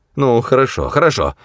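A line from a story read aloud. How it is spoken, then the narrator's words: Irritated, curt. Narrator (Russian): раздраженно бросил Лункуал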